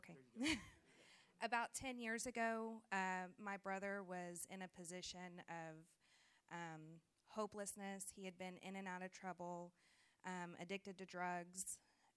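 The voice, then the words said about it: Slightly shaky, nervous voice. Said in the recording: “I'm a little nervous about public speaking, so forgive me if my voice is a little shaky.”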